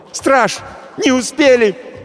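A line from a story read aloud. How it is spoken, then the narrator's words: Shouted, sister. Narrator (Russian): крикнула сестра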